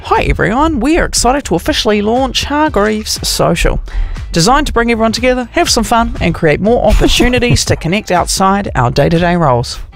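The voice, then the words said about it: Put-on accent reading an email. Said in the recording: “Don't know why I did that accent ... whoever wrote it probably does sound like that”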